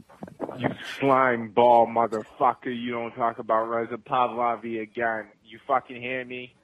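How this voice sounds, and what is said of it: Vaguely Iranian or Hebrew accent. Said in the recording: “this tough guy with his vaguely Iranian Hebrew accent”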